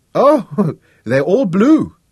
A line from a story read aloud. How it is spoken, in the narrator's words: Miriam exclaimed